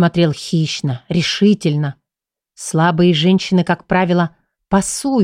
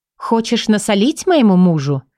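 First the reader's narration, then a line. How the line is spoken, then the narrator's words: Sharp, openly impolite. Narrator (Russian): Еще более резко ответила женщина, окончательно сбрасывая маски учтивости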